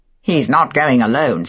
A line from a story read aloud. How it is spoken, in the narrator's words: said Favell with a short laugh